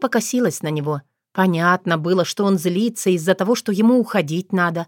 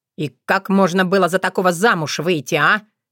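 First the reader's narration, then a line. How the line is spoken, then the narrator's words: Angry question. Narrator (Russian): сердито уточнил Ворон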